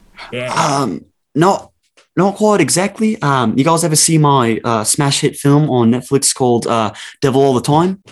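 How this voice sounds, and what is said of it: Put-on New Zealand accent. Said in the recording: “practicing on my Kiwi accent”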